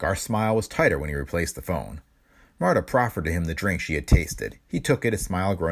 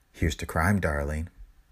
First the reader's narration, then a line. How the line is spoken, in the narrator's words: She said softly